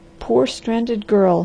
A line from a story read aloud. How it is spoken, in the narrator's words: he muttered